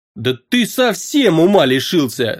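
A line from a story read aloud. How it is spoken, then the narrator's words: Yelling. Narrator (Russian): завопил полуэльф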